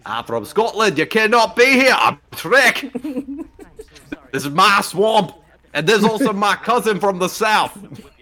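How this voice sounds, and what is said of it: Attempted Scottish accent drifting Southern. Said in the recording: “I tried to do a Scottish accent, and it just went completely, like, southern.”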